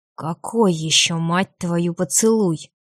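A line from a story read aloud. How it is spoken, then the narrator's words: Breathed through teeth. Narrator (Russian): Сквозь зубы выдохнул Лютер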